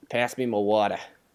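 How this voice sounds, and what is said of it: Put-on Boston accent. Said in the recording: “That's all I really know Boston accent wise.”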